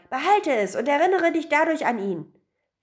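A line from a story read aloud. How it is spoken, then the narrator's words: Young man shouting. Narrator (German): schrie der junge Mann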